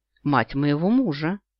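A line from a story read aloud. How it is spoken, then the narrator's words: Calm explanation. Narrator (Russian): спокойно объясняю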